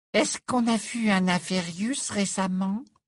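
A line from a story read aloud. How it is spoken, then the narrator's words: Small high-pitched voice. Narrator (French): demanda Parvati Patil d'une petite voix aiguë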